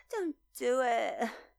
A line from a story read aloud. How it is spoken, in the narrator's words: he pleaded adorably